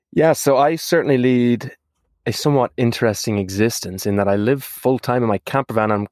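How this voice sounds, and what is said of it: Irish accent. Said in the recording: “if you can't tell from my accent, is because I'm from that small little island on the west coast of Europe called Ireland”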